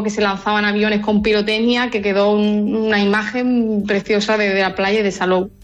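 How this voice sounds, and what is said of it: Andalusian Spanish accent. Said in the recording (Spanish): “ese acento no es de Salou precisamente ... De Sevilla, de Écija. ... Andalucía, sí.”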